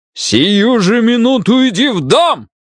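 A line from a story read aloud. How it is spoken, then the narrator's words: Father shouting at full voice. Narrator (Russian): Заорал отец во весь голос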